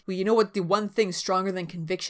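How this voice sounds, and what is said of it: Weak low-voiced Angel impression. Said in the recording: “not a very good angel impersonation ... I don't know that I can go low enough”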